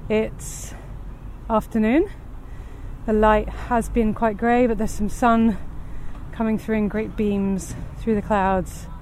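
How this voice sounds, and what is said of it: Slightly out of breath. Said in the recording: “you can probably hear in my voice already, it's uphill just to get to the bridge”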